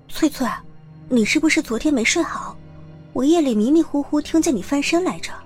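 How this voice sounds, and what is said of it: Quiet, hushed question. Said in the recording (Chinese): “小声的问道”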